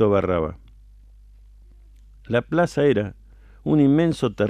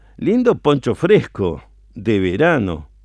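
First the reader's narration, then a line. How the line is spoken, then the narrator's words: Cheerful teasing exclamation. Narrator (Spanish): exclamó el comisario Barraba, burlándose alegre y amablemente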